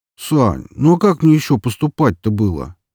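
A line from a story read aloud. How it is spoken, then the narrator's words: Near moan. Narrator (Russian): едва ли не простонал он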